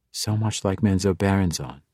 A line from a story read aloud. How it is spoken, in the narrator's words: she said quietly